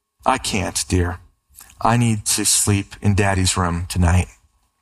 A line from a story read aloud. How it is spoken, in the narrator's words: smiling, the mother said tenderly